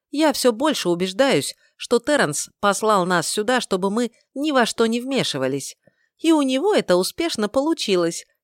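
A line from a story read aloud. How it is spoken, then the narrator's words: Giggling. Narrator (Russian): хихикнула Стия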